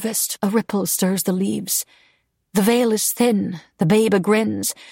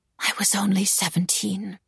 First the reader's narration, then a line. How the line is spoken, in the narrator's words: she whispered instead, lost in her memories